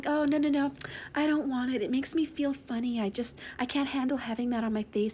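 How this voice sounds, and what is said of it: Whiny, childish put-on voice. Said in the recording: “doing my little bitch voice”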